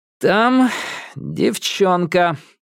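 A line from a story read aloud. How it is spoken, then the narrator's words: Gloomy. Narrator (Russian): мрачно произнес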